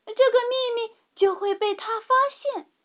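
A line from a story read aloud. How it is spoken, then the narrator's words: Crying out. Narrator (Chinese): 茉莉也叫道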